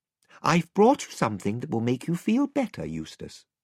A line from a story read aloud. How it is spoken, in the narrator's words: said Lucy